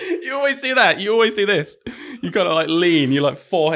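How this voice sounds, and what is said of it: Usual voice. Nothing is said of it.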